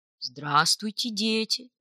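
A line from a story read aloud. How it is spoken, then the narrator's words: Solemn, sad moose. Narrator (Russian): торжественно и печально произнес лось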